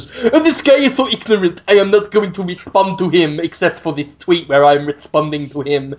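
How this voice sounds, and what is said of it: Mocking impression of esports fans. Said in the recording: “That's my impression of everyone who's ever liked esports ever.”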